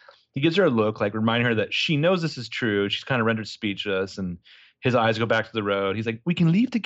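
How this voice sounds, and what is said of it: Usual voice. Nothing is said of it.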